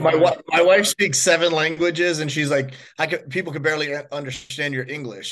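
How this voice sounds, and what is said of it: Strong American accent. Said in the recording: “your strong American accent comes through”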